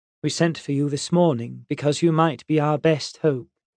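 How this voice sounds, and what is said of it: Smooth English accent. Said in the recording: “she said in a smooth English accent”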